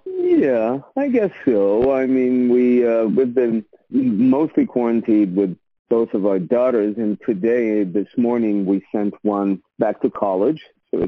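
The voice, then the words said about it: Eastern European accent, Lithuanian-sounding. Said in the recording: “I love your accent. I'm Lithuanian, so I love it. It sounds oh so familiar.”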